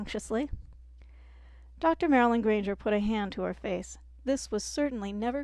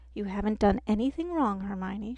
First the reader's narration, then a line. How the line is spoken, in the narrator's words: she said calmly